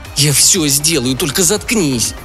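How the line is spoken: Exasperated groan. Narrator (Russian): простонал Билл, теряя терпение

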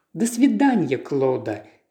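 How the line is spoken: Gentle. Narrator (Russian): так же ласково ответила Паола

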